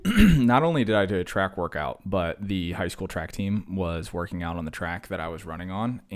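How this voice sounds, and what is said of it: Worn, strained, winded voice. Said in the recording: “You can even hear it in my voice. Like I'm falling apart... hear it in my voice. I sound like I'm going to fall apart here. I just did a track workout, and it kicked my tush.”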